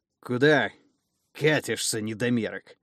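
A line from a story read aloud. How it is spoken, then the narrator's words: Menacing growl. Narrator (Russian): грозно рыкнул преследователь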